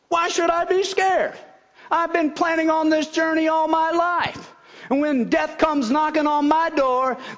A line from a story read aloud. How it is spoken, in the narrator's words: Miss Betty exclaimed